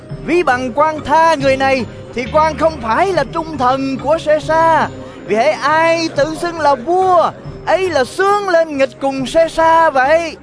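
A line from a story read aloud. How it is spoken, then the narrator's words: Crowd crying out. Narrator (Vietnamese): dân Giu-đa kêu lên rằng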